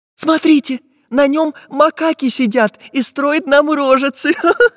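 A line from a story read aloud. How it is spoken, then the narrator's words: Laughing. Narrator (Russian): засмеялась Настенька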